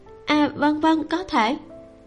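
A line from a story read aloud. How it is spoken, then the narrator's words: Trembling acceptance. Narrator (Vietnamese): Cô gái kia run rẩy tiếp nhận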